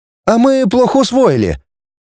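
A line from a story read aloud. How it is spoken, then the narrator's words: Joyful group chorus. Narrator (Russian): Группа радостно поддержала почтаря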